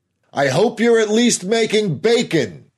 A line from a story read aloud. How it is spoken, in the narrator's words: Harris called out